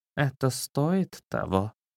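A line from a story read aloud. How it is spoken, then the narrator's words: Weak, quiet cat. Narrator (Russian): Не в силах встать, кот тихо произнес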